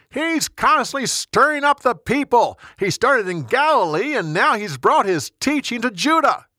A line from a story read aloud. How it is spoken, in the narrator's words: They shouted back